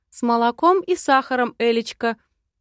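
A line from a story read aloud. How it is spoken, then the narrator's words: Joyfully. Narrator (Russian): радостно отзывается Артём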